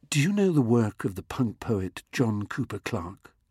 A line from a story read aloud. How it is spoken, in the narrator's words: he whispered